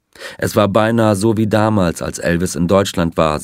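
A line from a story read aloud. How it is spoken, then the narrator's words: Plain. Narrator (German): sagte er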